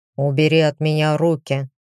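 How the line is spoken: Growl. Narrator (Russian): рыкнул он

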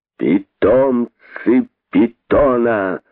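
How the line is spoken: Shrill hissing scorn. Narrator (Russian): Пронзительным голосом, одолевая природное шипение, продолжал он, показывая, что нет большего позора, чем иметь таких питомцев

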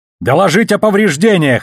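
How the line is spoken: Hopeful shout. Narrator (Russian): заорал он в надежде, что связь еще действует

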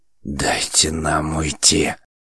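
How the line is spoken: Growling reply. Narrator (Russian): прорычал он в ответ

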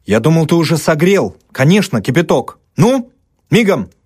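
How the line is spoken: Sharp shout. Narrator (Russian): прикрикнул Даль

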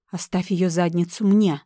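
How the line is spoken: Agitated growl. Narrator (Russian): рыкнул все еще не успокоившийся Рипли

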